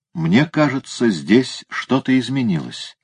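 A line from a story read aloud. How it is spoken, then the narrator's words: Plain. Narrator (Russian): сказал он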